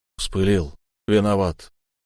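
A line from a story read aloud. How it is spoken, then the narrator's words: Forced reluctant words. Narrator (Russian): выдавил из себя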